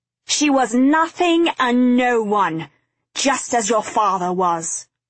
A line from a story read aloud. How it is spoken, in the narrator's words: he screamed